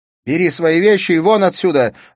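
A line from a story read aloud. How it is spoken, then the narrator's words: Shouting, choking with tears. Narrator (Russian): задыхаясь от слез, крикнула Бергитта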